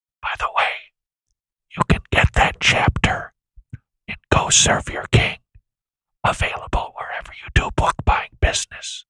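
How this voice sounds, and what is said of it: Whispering as an aside. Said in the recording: “why I'm whispering for such an extended amount of time as if I'm doing some sort of an aside”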